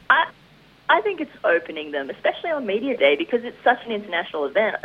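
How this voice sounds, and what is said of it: Mild Australian accent. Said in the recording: “the Australian accent ... you don't have a harsh accent ... relatively tame ones ... I sound very Australian”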